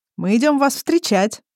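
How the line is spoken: Joyful. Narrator (Russian): радостно сообщает Тирбиш

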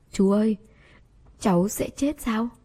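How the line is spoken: Terrified trembling little girl. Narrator (Vietnamese): Cô gái nhỏ cực kỳ sợ hãi, giọng run run hỏi

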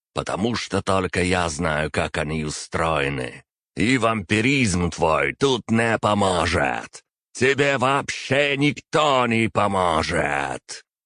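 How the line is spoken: Nearly shouting, unhinged. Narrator (Russian): Последнюю фразу он практически прокричал

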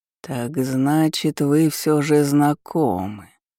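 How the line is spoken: Drawled. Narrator (Russian): протянул Калеб

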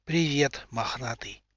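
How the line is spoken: Dry-lipped whisper. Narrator (Russian): прошептал сухими губами

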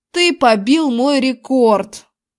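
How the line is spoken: Howled. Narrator (Russian): Взвыл Зак

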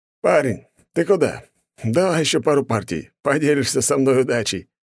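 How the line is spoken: Thin man's chuckle. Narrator (Russian): хохотнул худощавый мужчина

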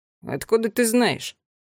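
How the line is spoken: Grumbling. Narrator (Russian): проворчал Аттила Кникс

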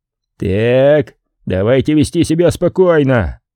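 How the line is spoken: Excited roar. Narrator (Russian): проревел Нокс, выглядя при этом самым возбужденным из всех

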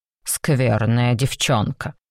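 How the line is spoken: Stern. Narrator (Russian): сказал Мактул, строго

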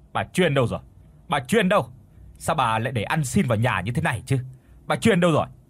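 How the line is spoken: Shouting. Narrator (Vietnamese): Hắn hét bà người làm

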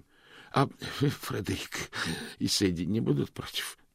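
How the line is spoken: Hoarse rasp. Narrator (Russian): прохрипел Мокриц

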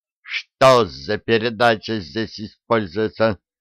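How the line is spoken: Clipped, curt. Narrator (Russian): отчеканил он рубленными фразами

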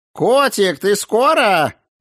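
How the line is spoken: Roaring. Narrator (Russian): взревела Анжелика

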